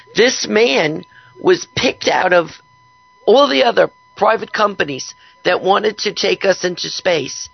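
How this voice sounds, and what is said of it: Hoarse, strained voice. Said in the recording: “I'm really losing my voice today.”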